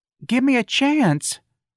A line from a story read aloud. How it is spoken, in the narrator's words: Darlene pleaded